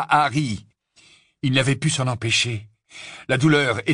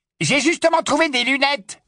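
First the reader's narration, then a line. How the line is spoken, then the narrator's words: Yelping snatcher. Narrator (French): glapit l'un des rafleurs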